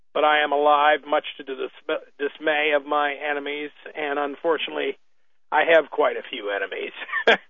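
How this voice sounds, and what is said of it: Rough voice from a cold. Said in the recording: “I sound a little rough this evening, that's because I am. This cold does not treat me well.”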